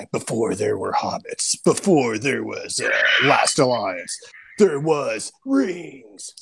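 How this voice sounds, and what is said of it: Movie trailer narrator voice. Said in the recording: “I imagine Trailer Voice Guy”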